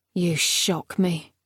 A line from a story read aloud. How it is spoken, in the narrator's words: muttered Palamedes